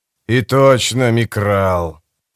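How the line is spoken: Grumble. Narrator (Russian): проворчал тот же голос

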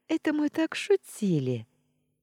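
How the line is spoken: Giggling, then sad and quiet. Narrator (Russian): хихикнула Флоренс, но тут же ее голос стал грустным и тихим

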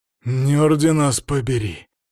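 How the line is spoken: Sigh. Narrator (Russian): вздохнул Свари

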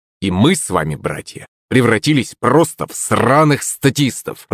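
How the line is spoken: Through gritted teeth. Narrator (Russian): процедил Артур

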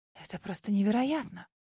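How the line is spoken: Ecstatic, breathless, restrained. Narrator (Russian): восторженно выдохнула, стараясь унять эмоции

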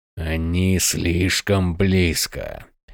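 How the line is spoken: Hissed. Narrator (Russian): прошипел Крас

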